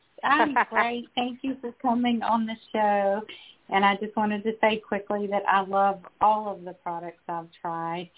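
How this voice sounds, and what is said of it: Southern US accent. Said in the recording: “I love hearing that Southern accent.”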